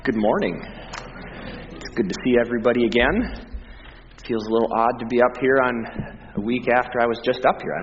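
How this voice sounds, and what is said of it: Scratchy, slightly deeper voice. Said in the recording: “my voice is a little bit scratchy today ... spending plenty of time speaking loudly in the gym ... I felt I had a little more bass tones this morning”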